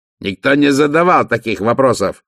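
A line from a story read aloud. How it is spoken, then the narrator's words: Barked. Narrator (Russian): рявкнул Вольф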